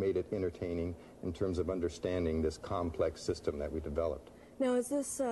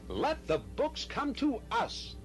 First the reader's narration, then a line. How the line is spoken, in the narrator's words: shouted